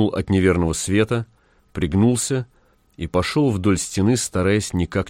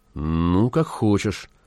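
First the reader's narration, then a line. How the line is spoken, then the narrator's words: Unusually uncertain voice. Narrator (Russian): произнес Зев непривычно неуверенным голосом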